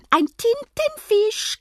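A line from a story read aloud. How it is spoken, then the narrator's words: Shrieked. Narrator (German): kreischen sie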